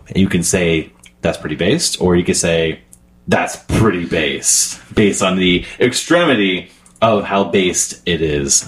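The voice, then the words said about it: Imitates another person's voice. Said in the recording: “That's my best Ramsey Aziz impersonation.”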